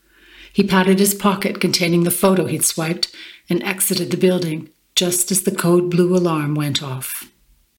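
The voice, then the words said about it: German accent. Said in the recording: “comments on your German accent, favourable ones”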